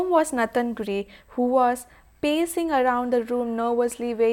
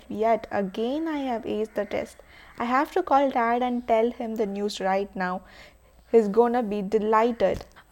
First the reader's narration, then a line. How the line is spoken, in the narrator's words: Sarah Gray, who mumbled to herself